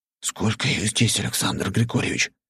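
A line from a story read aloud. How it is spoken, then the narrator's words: Cautious whispered question. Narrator (Russian): шепотом спросил я, опасаясь привлечь их внимание к нам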